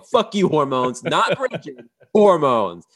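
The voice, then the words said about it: Imitates another person's voice. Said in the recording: “I don't do the voice, but I will do it in a second ... Seth Rogen says”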